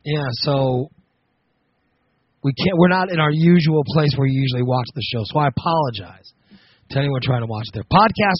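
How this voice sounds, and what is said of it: Slightly hoarse voice. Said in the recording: “my voice. I don't know if you can tell, but it's a little hoarse.”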